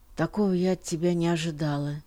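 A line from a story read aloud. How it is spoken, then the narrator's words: Tired. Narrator (Russian): сказала она устало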